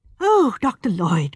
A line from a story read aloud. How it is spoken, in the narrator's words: cried Miss Marple excitedly